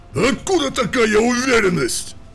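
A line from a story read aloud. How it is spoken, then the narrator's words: Barking. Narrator (Russian): рявкнул Брантон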